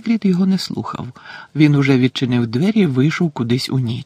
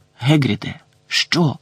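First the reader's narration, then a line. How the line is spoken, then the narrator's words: Hissed. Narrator (Ukrainian): просичав Гегрід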